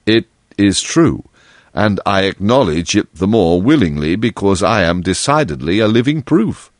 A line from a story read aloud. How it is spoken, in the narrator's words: replied Monsieur Synthèse very gravely